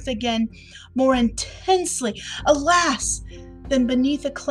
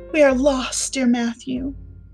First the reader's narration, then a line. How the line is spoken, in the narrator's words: she said mournfully